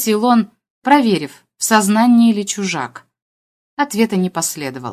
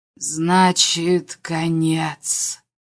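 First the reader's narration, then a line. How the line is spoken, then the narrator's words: Slow, pained. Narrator (Russian): произнес инопланетянин медленно, словно отодвигая туманную завесу боли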